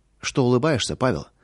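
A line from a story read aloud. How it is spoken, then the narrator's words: Plain. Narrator (Russian): спросила жена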